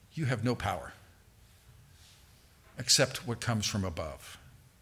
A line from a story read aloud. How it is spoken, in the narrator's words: Jesus calmly responds